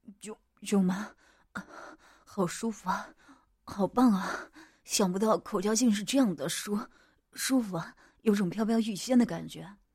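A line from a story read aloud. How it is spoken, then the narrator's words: Panting. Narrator (Chinese): 我喘息着说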